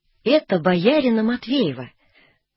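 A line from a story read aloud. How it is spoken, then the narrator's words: Calm, unsure outburst. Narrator (Russian): выкрикнулась совсем спокойно, без колебания, но и без уверенности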